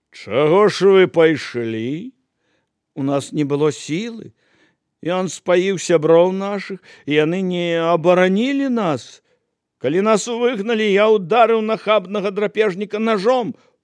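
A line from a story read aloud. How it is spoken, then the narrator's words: Contemptuous smile. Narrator (Belarusian): Знамяроўскі пагарліва усміхнуўся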